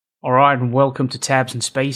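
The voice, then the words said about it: Attempted Australian accent. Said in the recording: “Was that an attempt at an Australian accent?”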